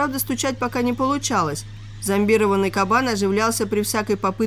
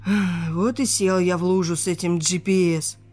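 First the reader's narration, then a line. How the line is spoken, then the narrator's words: Sighed. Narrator (Russian): вздохнул Алексей Николаевич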